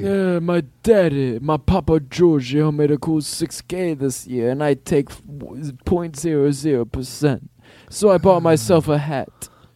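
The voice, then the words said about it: Godfather-style mobster impression. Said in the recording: “Godfather music... You don't think you want to do Godfather impersonations?”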